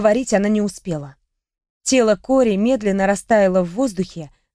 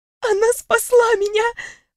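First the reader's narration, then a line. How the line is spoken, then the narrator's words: Sniffling girl. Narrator (Russian): всхлипнула носом девушка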